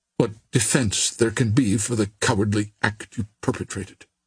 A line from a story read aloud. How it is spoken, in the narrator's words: she returned coldly